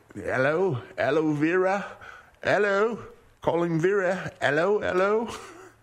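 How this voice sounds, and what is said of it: Australian accent put on. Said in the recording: “That's an Aussie accent.”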